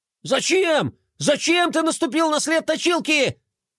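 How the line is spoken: Panicked yelling. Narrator (Russian): Бублик в панике вопил

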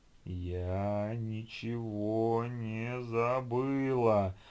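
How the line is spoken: Sudden howl, unnatural voice. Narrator (Russian): Вдруг совершенно не своим голосом провыла девушка

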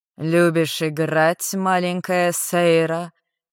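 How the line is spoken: Hoarse guttural growl. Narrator (Russian): Как-то чересчур хрипло и утробно прорычал Шек

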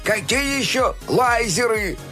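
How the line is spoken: Shouting. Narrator (Russian): кричал он

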